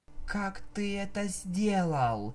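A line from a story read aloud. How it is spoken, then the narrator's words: Weak voice. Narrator (Russian): Слабым голосом спросила Дэш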